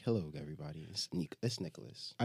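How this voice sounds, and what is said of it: Deeper radio-host podcast voice. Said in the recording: “You really have like the podcast voice down. Like, he gets a little bit deeper.”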